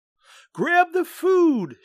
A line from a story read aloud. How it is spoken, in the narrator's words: shouted Mom